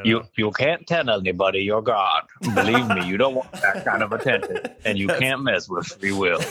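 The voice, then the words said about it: Morgan Freeman impression. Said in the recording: “when I think of Morgan Freeman, I just always think of Bruce Almighty ... he does a very unique voice, but it feels hard to impersonate ... That's way better than I could do ... It's not good ... I cannot do his voice”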